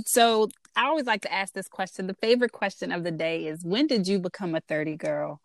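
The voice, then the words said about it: DMV regional American accent. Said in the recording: “my DMV accent, which I get all the time”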